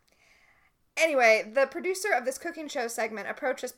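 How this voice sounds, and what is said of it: Usual voice. Nothing is said of it.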